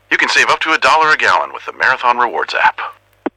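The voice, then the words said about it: Impression of Max the Bald Eagle. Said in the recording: “Max the Bald Eagle from Marathon here. We asked people if they could do an impression of me... That last one was pretty good.”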